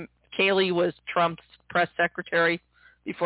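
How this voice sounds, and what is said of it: Usual voice. Nothing is said of it.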